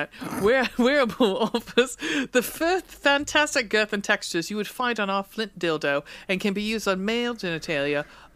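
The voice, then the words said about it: Inconsistent put-on English accent. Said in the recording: “I'm all over the fucking map in England with this accent.”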